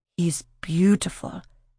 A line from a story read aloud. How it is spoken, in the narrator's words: Regina whispered